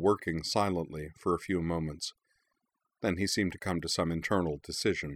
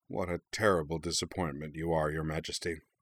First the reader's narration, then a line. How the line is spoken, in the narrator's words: he said gravely